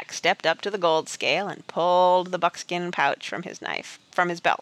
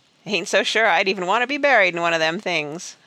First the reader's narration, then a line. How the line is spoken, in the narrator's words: a miner laughed